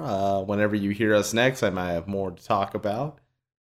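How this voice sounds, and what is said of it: Slight country twang. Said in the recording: “You sound a little country.”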